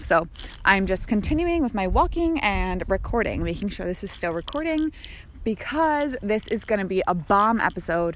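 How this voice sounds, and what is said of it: Out of breath while walking. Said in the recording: “I'm a little out of breath. Clearly, I'm a little out of shape.”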